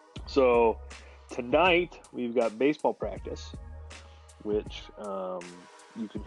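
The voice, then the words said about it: Sarcastic, unenthusiastic tone. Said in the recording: “hear the excitement in my voice.”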